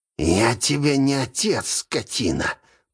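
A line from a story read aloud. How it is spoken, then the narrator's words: Angry hiss. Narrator (Russian): прошипел тот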